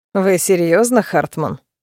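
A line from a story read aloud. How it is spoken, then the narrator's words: Contemptuous snort. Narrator (Russian): фыркнул блондин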